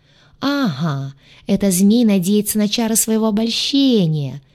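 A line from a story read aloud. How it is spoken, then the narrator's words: Cheerful chuckle. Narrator (Russian): весело хохотнул Гадюша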